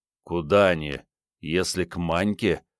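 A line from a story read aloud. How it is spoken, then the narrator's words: Angry grumbling. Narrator (Russian): злобно заворчал Андрей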